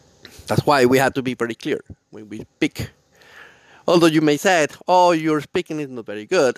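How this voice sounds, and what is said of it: Non-native English accent. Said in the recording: “The accent of my broken English ... my accent”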